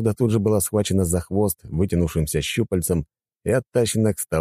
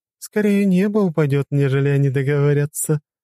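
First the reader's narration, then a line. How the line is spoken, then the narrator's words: Woman laughing loudly. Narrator (Russian): расхохоталась рыжеволосая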